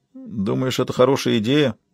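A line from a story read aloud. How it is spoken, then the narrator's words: Uncertain question. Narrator (Russian): неуверенно спросил Кертис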